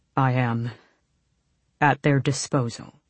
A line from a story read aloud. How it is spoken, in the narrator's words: Kaol said tightly